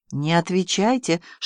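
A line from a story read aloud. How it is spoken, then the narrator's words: Old man whispering. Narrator (Russian): шепнул старик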